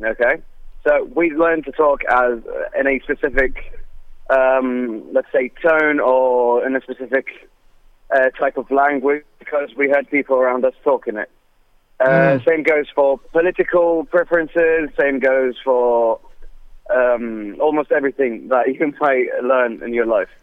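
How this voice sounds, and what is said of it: Liverpool accent. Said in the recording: “Liverpool accent, by the way. ... very nice Liverpool accent.”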